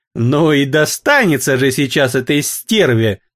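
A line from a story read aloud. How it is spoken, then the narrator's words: Spiteful giggle. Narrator (Russian): злобно хихикнула Эвелин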